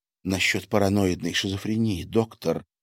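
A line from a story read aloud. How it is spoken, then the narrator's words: Quiet mutter. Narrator (Russian): негромко пробормотала Маша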